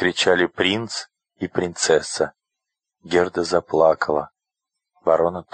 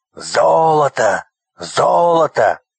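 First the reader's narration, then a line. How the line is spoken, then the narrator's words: Shouting. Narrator (Russian): кричали разбойники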